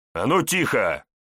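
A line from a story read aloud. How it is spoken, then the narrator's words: Barked. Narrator (Russian): Парень рявкнул на агрессоршу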